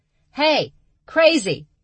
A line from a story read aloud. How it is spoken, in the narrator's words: She yelled up to the trees